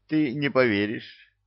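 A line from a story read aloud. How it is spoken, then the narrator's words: Commander laughing. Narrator (Russian): засмеялся воевода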